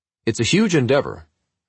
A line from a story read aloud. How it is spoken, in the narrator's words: he exclaimed